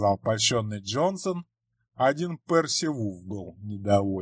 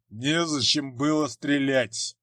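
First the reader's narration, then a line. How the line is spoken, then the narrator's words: Grumbled. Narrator (Russian): проворчал он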